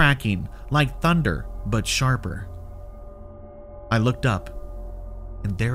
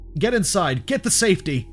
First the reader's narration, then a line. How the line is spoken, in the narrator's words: I shouted, my voice trembling slightly